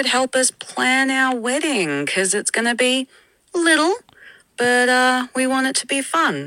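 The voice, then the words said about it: Melbourne Australian accent. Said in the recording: “What a pleasant voice message to get. I love a Melburnian accent.”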